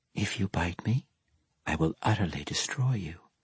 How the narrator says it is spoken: she whispered, mimicking Dorcray's teasing tones

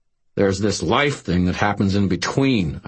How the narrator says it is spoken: I snarled

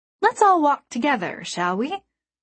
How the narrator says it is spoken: his voice was cheerful

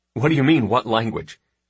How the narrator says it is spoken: I answered with a smile

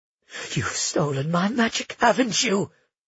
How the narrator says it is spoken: she hissed

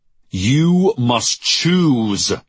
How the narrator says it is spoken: he roared

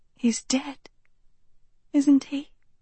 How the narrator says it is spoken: Sophie said softly

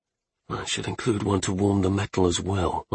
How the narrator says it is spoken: I muttered

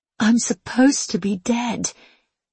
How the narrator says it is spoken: she whispered

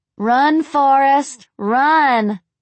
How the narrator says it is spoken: Rachel called out after her with laughter

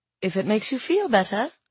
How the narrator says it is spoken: I said softly

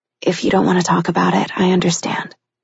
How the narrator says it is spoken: said softly

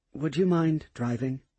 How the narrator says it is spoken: she softly asked

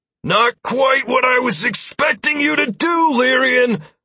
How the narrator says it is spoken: I heard Lazarus shout from somewhere in front of me

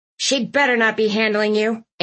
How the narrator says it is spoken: Aunt Tilly grumbled from the back seat

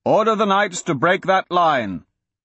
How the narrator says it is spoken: the Count shouted

